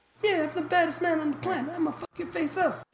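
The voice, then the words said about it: Mike Tyson impression, high lisping voice. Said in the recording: “Mike Tyson had a voice like that, but he has like a lisp, and it's like really high ... That's a pretty good impression.”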